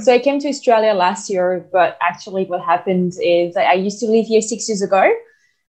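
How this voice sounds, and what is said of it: French accent. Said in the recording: “There's a bit of an accent there as well ... I'm French. So that's where my accent comes from”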